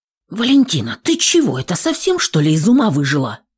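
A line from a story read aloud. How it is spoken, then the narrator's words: Loud whisper. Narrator (Russian): Не слишком-то стремясь к приватности, громко зашептала тетя Света, мамина подруга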